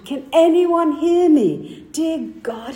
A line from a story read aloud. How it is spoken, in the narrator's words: Again, he shouted